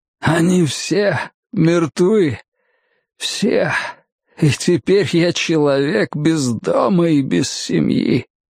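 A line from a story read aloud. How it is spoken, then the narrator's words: Terrible cracked wheeze. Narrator (Russian): ужасающий надтреснутый голос прохрипел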